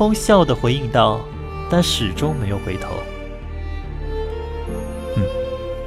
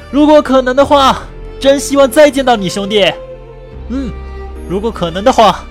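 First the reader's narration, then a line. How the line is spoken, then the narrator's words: Calling out from behind. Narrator (Chinese): 独眼在他的身后喊道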